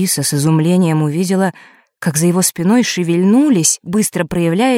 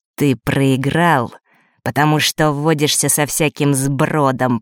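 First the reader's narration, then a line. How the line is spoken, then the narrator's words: Through gritted teeth. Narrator (Russian): процедил Марк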